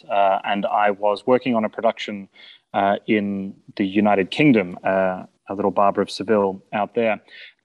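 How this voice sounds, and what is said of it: Non-native foreign accent. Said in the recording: “as my accent betrays, I'm not a native to these shores”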